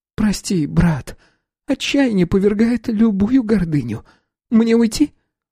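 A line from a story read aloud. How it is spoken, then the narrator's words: Near groan. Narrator (Russian): Я чуть не застонал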